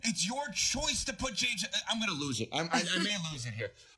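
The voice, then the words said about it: Yelling very loudly. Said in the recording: “I'm yelling too much ... with how loud”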